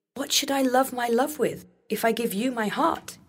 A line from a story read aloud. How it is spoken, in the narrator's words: cried